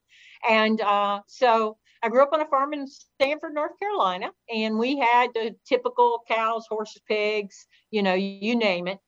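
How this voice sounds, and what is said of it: Slight Southern US accent. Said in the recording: “you might pick up a little bit of southern accent,”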